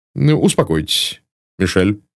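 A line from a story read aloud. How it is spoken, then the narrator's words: Plain. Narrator (Russian): сказал мсье Бук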